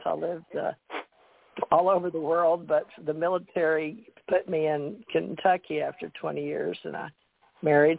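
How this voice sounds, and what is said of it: Southern American accent. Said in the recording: “I'm from the South ... So I have developed around my family a Southern accent”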